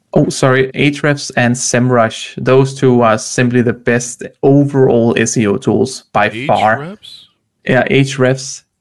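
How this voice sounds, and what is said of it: Noticeable accent, hard to understand. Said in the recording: “You're going to have to give me slower because your accent is mucking it up.”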